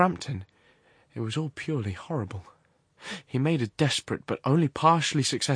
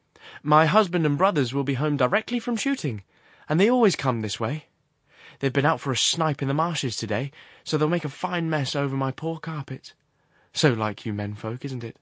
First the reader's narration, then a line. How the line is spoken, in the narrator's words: She rattled on cheerfully